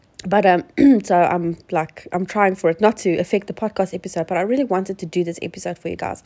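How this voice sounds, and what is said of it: Sick, congested-sounding voice. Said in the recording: “I've been sick. So you have to excuse my voice ... I've got, you know, full-on cold”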